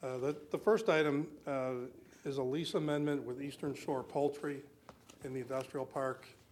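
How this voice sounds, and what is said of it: Hoarse, strained, fading voice. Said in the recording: “I'm losing my voice today”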